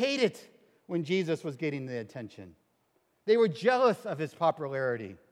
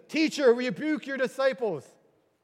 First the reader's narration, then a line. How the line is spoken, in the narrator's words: The Pharisees said, yelled to Jesus